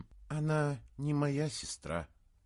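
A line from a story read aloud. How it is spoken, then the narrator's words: Sad reply. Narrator (Russian): печально ответила Мария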